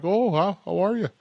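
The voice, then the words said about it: Bad put-on Canadian accent. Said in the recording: “I do a very bad Canadian accent. ... I wasn't quite sure what that was.”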